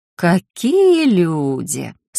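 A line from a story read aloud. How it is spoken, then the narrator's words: Sarcastic drawl. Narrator (Russian): саркастично протянула я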